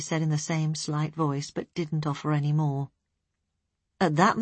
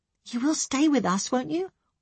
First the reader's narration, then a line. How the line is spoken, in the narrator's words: Elaine asked anxiously